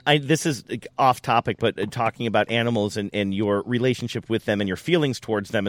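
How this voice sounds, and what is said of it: Strained, fading voice. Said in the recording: “I'm losing my voice. Can you hear that?”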